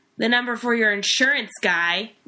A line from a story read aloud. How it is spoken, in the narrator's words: Wally shouted after him